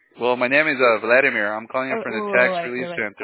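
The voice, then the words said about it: Very fast speech. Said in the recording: “You're talking really, really fast. ... You're talking like a mile a minute.”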